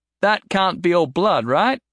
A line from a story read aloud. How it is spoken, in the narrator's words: Jason shouted over the noise